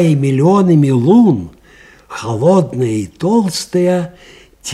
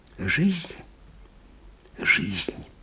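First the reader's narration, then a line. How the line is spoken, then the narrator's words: Whisper. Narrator (Russian): шептал Анискин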